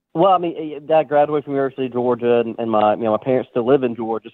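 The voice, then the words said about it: Southern American drawl. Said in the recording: “if you can't tell by his drawl ... you were from Georgia, from the South, from SEC country”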